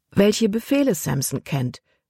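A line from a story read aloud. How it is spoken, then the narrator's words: Plain. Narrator (German): antwortete sie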